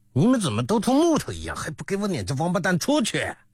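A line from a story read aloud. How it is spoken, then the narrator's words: Angry shouting. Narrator (Chinese): 那人大怒，叫两个底下人道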